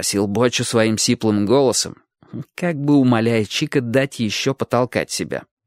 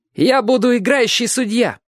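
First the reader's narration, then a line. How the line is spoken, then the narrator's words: Confident shout. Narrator (Russian): крикнул Чик уверенно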